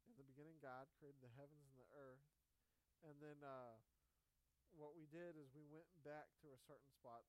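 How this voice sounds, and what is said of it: Hoarse, strained voice. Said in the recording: “I'm kind of losing my voice”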